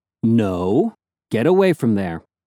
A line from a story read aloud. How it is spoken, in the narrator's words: I told her firmly